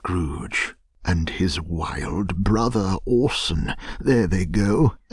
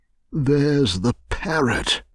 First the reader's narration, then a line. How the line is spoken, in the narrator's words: cried Scrooge